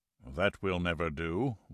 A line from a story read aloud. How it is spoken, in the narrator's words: Wolf said dryly